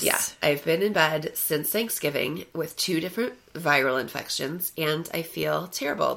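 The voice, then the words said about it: Croaky, frog-like sick voice. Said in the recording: “I sound like a frog, a cracked out cheerleader.”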